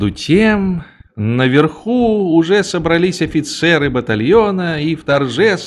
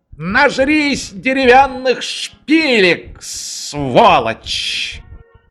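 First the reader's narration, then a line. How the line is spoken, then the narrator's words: Cook's furious yell. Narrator (Russian): Повар Юрайда так разозлился, заорал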